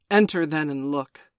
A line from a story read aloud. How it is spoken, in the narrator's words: said Father Wolf stiffly